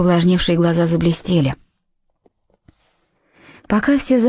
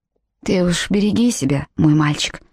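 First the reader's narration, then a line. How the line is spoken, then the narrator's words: Plain. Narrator (Russian): сказала миссис Таунсенд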